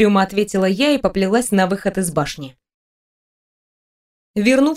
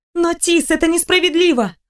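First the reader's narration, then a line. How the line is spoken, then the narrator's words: Exclaiming. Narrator (Russian): воскликнула я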